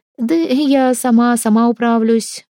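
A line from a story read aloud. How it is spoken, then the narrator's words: Timid, smiling. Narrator (Russian): робко улыбалась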